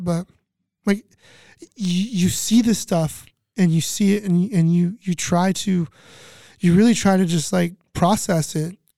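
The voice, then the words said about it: Emotional, choked-up speech. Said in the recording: “I'm going to get emotional”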